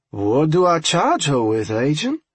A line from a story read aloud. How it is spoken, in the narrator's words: Wade said in a slow, somewhat dumb-sounding Cajun drawl